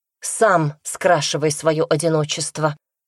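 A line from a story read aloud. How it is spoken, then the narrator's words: Spiteful. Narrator (Russian): злобно ответила она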